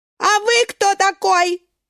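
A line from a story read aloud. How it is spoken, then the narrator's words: Yelling. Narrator (Russian): вопит морковка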